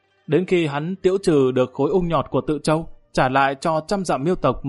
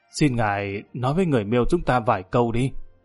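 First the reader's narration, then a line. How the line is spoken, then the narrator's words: Old man, low, amused and anxious. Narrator (Vietnamese): lão đầu này vừa tức cười lại vừa thấp thỏm lo lắng, hạ giọng nói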